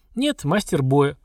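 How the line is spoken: Chuckling. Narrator (Russian): хохотнул Горд

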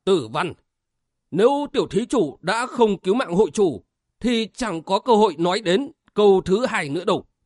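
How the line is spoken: Loud old nun. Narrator (Vietnamese): Tu Duyên lão ni lớn tiếng

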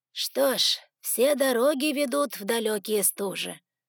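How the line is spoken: Breathed out. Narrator (Russian): выдохнул Артас

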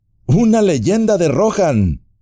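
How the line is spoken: Exclaimed. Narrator (Spanish): exclamó Legolas

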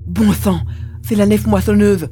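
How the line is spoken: Alarmed exclamation. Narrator (French): s'exclama l'émir

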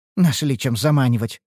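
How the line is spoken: Snort. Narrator (Russian): фыркнула

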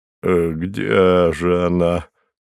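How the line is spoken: Muttered. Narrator (Russian): пробормотал он

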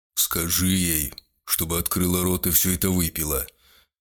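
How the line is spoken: Executioner's command. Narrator (Russian): велел палач

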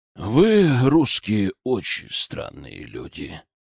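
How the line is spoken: Drawling. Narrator (Russian): протянул сенсей

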